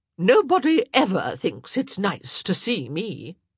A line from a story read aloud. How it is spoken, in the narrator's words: Lady Danbury said sharply